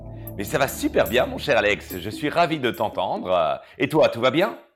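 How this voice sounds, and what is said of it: Belgian French accent. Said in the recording (French): “tu imites hyper bien l'accent belge ... je suis belge”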